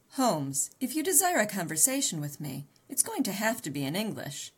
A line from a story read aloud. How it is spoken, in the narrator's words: I laughed